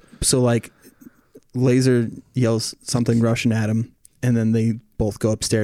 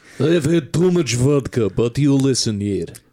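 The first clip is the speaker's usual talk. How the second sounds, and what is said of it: Thick accent, drunken uncle impression. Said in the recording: “his accent gets so fucking thick”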